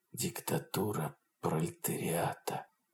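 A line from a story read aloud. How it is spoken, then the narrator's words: Smiling whisper. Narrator (Russian): прошептал он, улыбаясь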